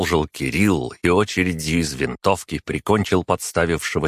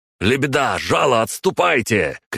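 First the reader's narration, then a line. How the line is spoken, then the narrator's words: Shouted. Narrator (Russian): крикнул Игнат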